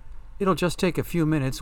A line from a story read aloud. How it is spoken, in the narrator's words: Winnie pleaded